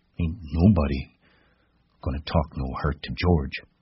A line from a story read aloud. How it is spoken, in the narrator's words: he grumbled